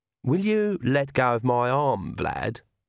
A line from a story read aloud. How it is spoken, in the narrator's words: said Agnes sweetly